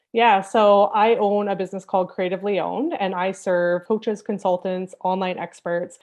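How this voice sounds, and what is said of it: Canadian accent. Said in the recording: “we can tell by your accent, you're on the other side of the world to me, up there in Canada”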